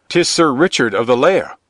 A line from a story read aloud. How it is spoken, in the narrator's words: cried another